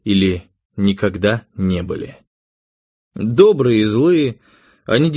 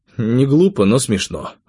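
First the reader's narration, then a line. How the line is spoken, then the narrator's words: Plain. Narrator (Russian): ответил я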